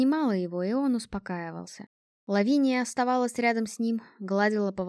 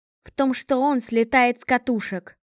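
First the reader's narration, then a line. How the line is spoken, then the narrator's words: Irritated reply. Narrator (Russian): раздраженно отозвалась Лавиния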